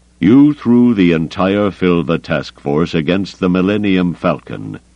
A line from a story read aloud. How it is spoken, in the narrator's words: he said at last, his voice under control again